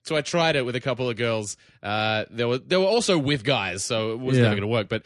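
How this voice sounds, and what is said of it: Australian accent. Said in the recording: “you got the Australian accent”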